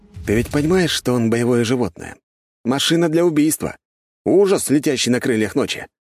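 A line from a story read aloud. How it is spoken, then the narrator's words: Sighing. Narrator (Russian): вздохнул я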